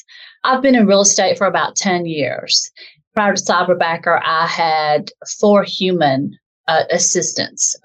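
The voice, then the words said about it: Southern US accent. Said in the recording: “as you can probably tell from my dialect, I'm from the South in a southern part of the United States”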